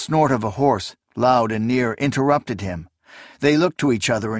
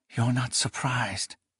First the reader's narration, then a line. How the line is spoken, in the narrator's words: she whispered in sudden understanding